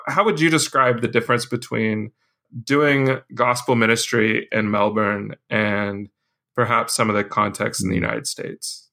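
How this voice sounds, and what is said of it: American accent. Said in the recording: “I was the American with the American accent.”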